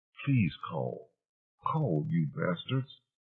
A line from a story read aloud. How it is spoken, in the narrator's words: muttered